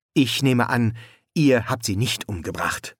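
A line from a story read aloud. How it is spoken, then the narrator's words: Plain. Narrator (German): sagte The Word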